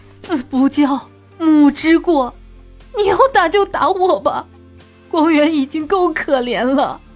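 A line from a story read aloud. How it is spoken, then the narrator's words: Crying mother. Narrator (Chinese): 其母哭着说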